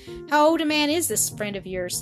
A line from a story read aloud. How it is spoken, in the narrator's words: he asked